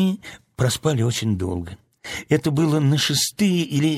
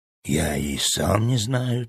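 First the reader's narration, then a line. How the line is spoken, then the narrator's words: Quiet boy's answer. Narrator (Russian): так же тихо ответил мальчик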